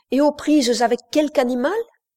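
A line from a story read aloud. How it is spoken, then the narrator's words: Exclaimed. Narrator (French): s'écria Wilcox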